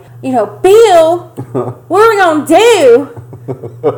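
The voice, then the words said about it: Exaggerated thick Southern accent. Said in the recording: “a very thick southern accent ... that level of inbred hillbilly”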